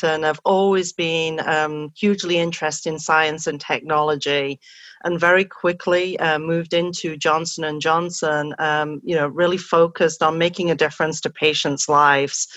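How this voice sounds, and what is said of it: English accent. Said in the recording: “I'm originally from England, as you can probably tell from my accent”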